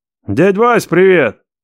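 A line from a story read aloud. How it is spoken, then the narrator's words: Loud bark. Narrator (Russian): гаркнул я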